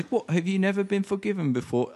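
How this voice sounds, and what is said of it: Imitates a character's accent. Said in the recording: “I'm doing Amanda's accent instead of Rebecca's.”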